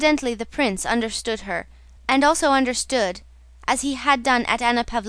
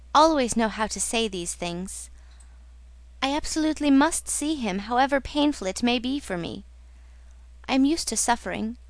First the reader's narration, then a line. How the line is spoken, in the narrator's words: she smiled tenderly